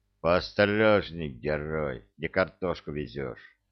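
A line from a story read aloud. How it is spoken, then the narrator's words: Displeased mutter. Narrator (Russian): буркнул маршал с неудовольствием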